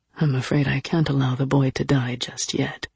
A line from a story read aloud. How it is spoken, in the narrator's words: he murmured